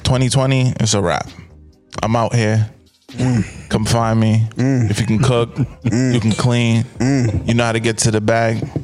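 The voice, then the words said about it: Put-on sexy seductive voice. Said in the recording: “the sexy voice”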